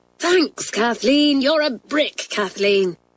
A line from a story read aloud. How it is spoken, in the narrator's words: everyone cried